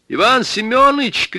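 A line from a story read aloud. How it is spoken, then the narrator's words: Shouting. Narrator (Russian): крикнул я ему в спину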